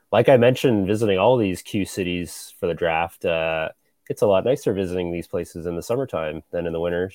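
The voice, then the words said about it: Worn voice, still recovering. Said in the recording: “as you can tell by my voice, I am still recovering from such a glorious weekend”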